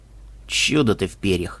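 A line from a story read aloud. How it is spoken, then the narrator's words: Sighing mouse. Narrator (Russian): вздохнул мышь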